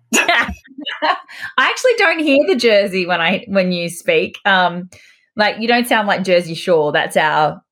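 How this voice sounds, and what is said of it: Australian accent. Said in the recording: “a dental hygienist from Australia, if you can't tell from my accent ... Love your accent”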